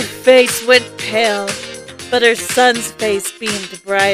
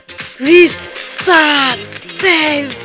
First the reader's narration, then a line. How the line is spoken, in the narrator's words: screamed as loud as he could